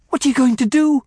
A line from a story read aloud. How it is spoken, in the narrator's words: I cried